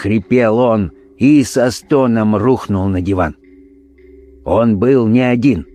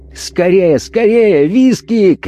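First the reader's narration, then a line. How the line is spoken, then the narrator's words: Shouting. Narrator (Russian): кричал он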